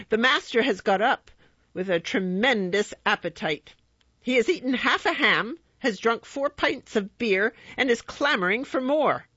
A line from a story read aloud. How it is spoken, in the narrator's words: shouted